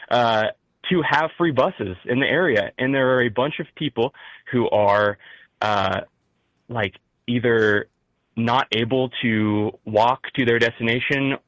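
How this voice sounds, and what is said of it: Midwestern American accent. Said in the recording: “my Midwest accent, kicks in sometimes”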